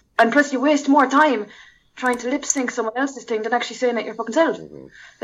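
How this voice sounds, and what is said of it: Speaks with a noticeable accent. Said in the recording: “Your voice and your accent, they're both very beautiful.”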